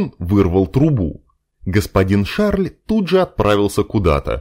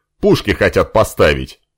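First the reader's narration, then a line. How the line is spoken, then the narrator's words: Wry snort. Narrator (Russian): хмыкнул Леон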